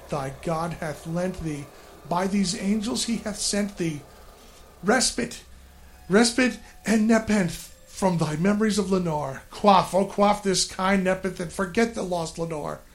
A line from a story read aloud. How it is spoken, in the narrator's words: I cried